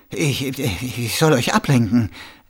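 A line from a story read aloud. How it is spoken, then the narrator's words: Trembling voice. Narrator (German): erwiderte Colin mit zitternder Stimme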